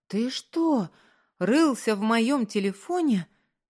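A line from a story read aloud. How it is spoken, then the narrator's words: Breathless stunned exclamation. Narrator (Russian): Задохнувшись, ошарашенно воскликнула она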